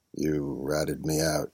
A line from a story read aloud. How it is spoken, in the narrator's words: said in a sad voice